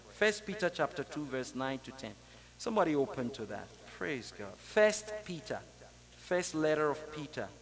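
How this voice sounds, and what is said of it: Speaks English with a foreign accent. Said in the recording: “I speak English with an accent”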